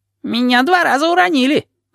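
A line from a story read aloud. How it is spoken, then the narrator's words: Squeaked. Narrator (Russian): пискнул Ванючка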